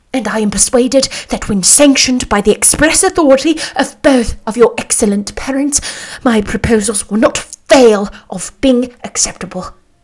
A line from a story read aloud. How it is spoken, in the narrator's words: cried he, with an air of awkward gallantry